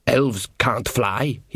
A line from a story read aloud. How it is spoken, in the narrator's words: he muttered